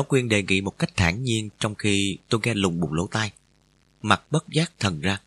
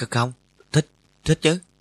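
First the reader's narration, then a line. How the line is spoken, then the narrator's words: Stammering. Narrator (Vietnamese): Tôi lắp bắp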